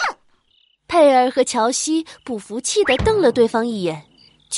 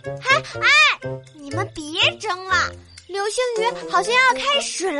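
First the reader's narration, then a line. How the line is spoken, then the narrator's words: Excited shout. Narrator (Chinese): 眼尖的丽丽激动的喊道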